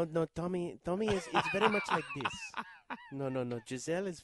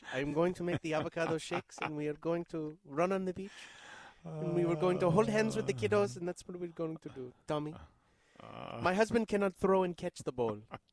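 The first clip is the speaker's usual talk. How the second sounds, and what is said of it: Imitates another person's voice, German-sounding. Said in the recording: “German/Giselle impersonation. It sounds too much like your Giselle impersonation.”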